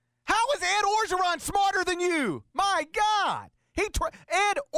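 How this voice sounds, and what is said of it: Usual voice. Nothing is said of it.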